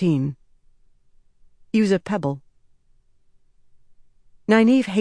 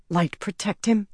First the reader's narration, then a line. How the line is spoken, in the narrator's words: whispered